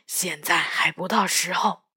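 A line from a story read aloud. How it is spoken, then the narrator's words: Hushed voice. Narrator (Chinese): 仍然压低了嗓音说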